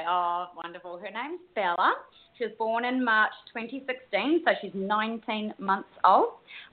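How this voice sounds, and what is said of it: A noticeable, likeable accent. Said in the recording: “you got to love the accent, too”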